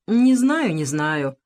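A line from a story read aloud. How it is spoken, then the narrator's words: Grumbling. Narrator (Russian): пробурчал Кахания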